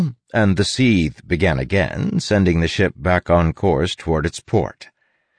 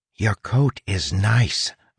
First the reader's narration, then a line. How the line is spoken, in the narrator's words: I whispered to her